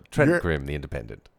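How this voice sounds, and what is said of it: Imitating Trent Crimm's voice. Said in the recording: “Can you do his voice again?”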